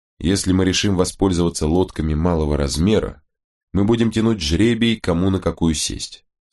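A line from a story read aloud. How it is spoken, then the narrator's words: Plain. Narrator (Russian): сказал капитан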